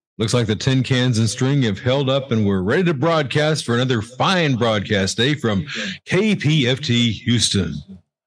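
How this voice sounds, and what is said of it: Deep radio announcer voice. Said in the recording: “Got to use my announcer voice ... you don't even have to do much for that announcer voice, man. It's just there.”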